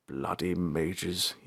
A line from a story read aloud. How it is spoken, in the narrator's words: he muttered